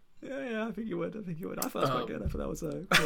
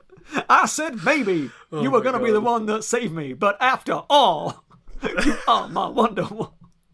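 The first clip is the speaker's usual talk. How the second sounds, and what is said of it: Sings in a put-on accent. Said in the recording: “would your brother criticize your accent there?”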